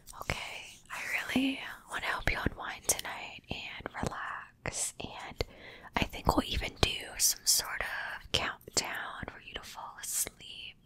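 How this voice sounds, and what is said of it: Soft whispering voice. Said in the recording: “I'm going to be whispering tonight in tonight's video. Enjoy the whispers.”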